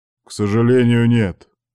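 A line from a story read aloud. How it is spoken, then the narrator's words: Deep bass. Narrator (Russian): пробасил директор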